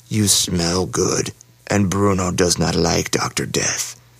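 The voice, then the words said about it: Harsh beast-man character voice. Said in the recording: “the beast man said in his harsh voice.”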